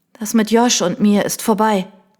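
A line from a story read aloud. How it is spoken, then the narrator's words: Croaking. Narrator (German): krächzte ich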